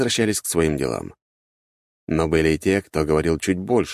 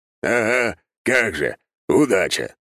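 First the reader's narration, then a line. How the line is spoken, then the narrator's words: Scoffing snort. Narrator (Russian): хмыкнул Таранов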